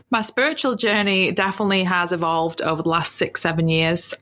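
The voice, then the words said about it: British English accent. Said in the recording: “I'm from the UK. You can tell from my accent.”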